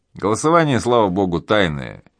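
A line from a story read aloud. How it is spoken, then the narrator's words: Giggling. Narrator (Russian): хихикнул Кретов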